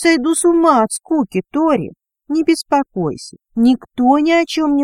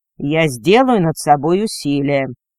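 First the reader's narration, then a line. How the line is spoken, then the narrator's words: Grim promise. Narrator (Russian): мрачно пообещал Виатор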